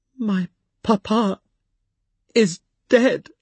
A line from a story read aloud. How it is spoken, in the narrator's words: she stammered out